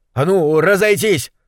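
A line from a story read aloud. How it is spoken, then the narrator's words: Sharp shout. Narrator (Russian): прикрикнул тучный мужчина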